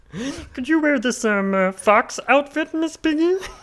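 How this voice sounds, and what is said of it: Cartoon frog character voice. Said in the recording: “let's hear your best Kermit the Frog accent.”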